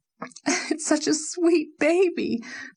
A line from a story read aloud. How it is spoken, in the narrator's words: sobbed Susan